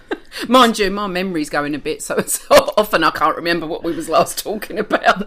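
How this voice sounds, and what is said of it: English Cockney accent. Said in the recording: “came from England. Because you can tell by her accent. ... East London ... I'm a Cockney”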